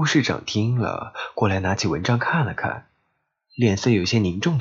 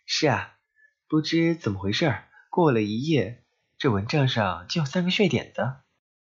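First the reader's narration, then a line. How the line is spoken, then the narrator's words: Laughing. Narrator (Chinese): 我笑道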